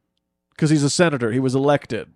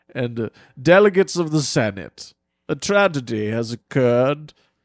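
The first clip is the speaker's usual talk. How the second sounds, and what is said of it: Palpatine impression, put-on accent. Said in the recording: “Sheev Palpatine's accent is a put on.”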